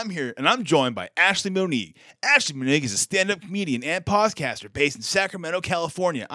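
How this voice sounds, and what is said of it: Put-on radio announcer voice. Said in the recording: “That is not only a great radio voice, that is a great voice specifically for someone named”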